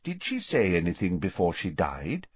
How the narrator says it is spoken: asked Dumbledore

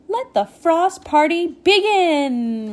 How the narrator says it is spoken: Rainy cried

